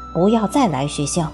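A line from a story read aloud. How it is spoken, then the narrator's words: Angry, humiliated. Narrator (Chinese): 他恼羞成怒道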